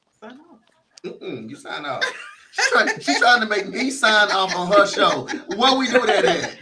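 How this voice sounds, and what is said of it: Soothing radio-style voice. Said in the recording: “he has the most amazing voice. You know how some people have that radio voice? That's him. ... it's a soothing voice.”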